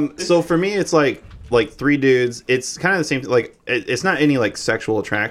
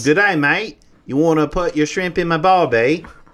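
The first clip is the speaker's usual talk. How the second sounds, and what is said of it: Put-on Australian accent. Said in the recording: “He's just Australian. That's why you like it. You like his accent.”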